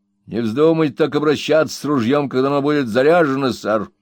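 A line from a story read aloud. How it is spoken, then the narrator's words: Grumbling. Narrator (Russian): проворчал рослый дозорщик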